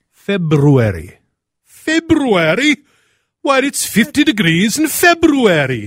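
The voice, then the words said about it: Put-on, almost Welsh accent. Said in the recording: “I have no idea what that accent is, but that is an acceptable... It's almost Welsh.”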